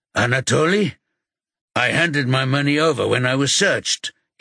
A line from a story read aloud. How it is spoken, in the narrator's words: he says in a gruff voice